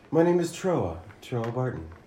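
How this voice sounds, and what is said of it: Role-play character voice. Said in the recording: “That's my character voice for the rest of the time.”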